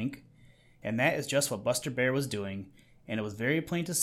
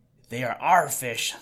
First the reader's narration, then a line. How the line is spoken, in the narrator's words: said Little Joe fiercely